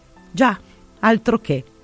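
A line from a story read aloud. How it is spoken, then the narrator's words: Nearly stammering. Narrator (Italian): quasi balbetta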